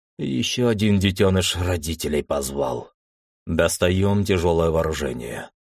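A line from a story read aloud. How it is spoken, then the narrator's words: Muffled, angry. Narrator (Russian): как-то глухо со злостью произнес командир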